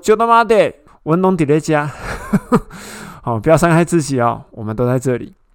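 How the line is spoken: Shouting. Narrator (Chinese): 保罗就大喊说

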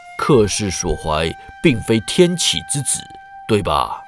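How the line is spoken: Cold. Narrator (Chinese): 魏忠贤冷冷看他

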